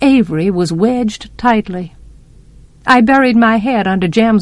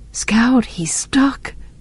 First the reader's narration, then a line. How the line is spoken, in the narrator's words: breathed Jem